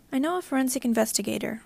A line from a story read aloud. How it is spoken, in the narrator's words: Oren said evenly